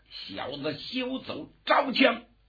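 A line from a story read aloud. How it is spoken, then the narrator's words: Impatient roar. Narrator (Chinese): 有点等不及了，大吼了一声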